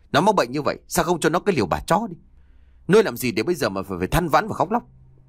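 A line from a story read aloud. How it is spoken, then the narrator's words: Angry. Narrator (Vietnamese): Tính giận dữ nói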